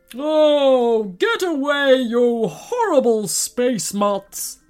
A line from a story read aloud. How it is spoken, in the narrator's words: bellowed the giant